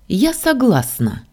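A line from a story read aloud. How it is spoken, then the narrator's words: Cheerful snort. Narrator (Russian): весело фыркнула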